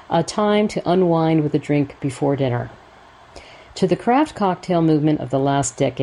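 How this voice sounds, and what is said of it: Usual voice. Nothing is said of it.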